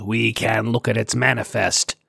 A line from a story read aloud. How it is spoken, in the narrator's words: Sar growled